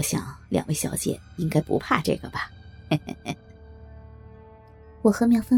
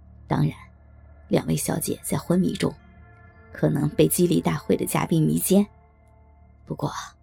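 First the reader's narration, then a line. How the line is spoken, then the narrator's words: Leering, low voice. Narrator (Chinese): 西服男人淫笑了一声，然后低声说道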